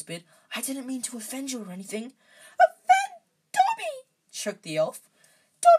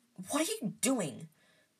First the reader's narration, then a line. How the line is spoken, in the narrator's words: Harry hissed